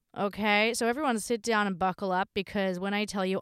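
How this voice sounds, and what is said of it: Sick, weakened voice. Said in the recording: “unwell ... I did lose my voice, I did get very, very sick ... I'm incredibly still unwell and I'm just, I- am barely scraping by”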